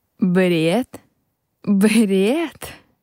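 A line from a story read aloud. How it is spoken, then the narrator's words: Angry laughter. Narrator (Russian): Рассмеялся, чувствуя, как тело начинает колотить от злости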